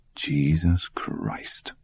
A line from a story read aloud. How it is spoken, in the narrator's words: Ed French muttered